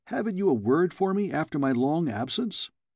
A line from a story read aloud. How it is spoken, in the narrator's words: exclaimed